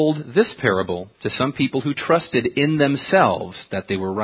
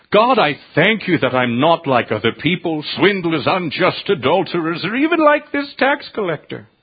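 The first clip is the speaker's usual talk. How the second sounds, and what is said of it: Put-on accent. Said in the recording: “I don't mean anything by the accent.”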